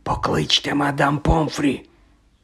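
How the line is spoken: Whisper. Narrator (Ukrainian): прошепотів Дамблдор

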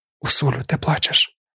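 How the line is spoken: Whisper. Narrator (Ukrainian): прошепотіла Чані

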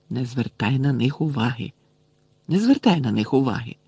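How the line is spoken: Barely audible muttering. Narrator (Ukrainian): Герміона весь час бурмотіла йому ледве чутно

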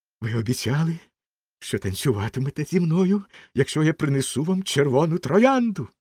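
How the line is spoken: Exclaimed. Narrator (Ukrainian): вигукнув студент

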